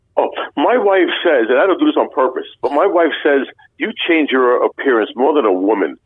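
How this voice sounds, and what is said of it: Brooklyn accent. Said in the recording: “my Brooklyn accent, it's something that stands out”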